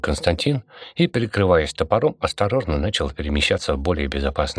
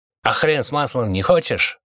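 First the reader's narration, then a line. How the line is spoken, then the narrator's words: Angry guard's retort. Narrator (Russian): зло отозвался один из охранников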